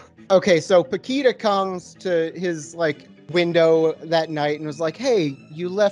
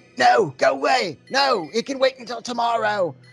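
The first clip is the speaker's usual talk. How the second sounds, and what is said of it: Put-on British accent. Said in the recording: “I don't know why I'm doing a British accent.”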